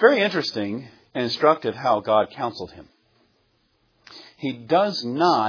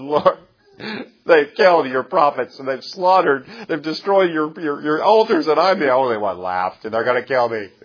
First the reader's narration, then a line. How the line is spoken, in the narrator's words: He cries out and says